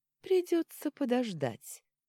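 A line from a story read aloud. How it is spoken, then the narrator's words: Cheerful, thin feminine voice. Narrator (Russian): бодро сказал Арман тонким женским голосом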